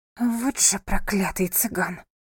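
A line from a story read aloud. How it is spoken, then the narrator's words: Angry whisper. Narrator (Russian): зло прошептала она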